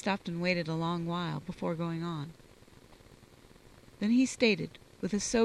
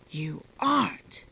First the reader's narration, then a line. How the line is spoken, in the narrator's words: His voice was strained and excited